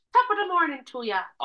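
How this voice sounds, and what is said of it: Put-on Irish accent. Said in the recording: “Irish.”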